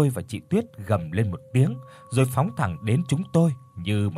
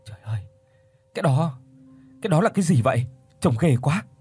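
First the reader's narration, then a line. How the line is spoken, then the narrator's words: Trembling, frightened. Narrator (Vietnamese): Chị Tuyết lúc này tái mét mặt run rẩy rồi nói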